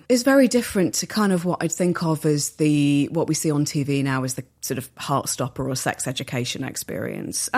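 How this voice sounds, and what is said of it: Accent with flat short A vowels. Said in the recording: “the flat A's ... when you say bath, laugh, grass, that kind of thing, instead of having the longer A on it, that's something that I still do”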